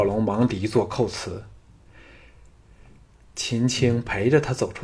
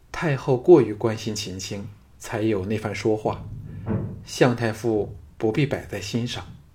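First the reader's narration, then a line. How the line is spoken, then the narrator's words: Cool, detached. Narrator (Chinese): 秦青脸容冷淡如昔，淡淡的说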